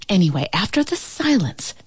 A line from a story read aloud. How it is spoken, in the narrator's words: the ant whispered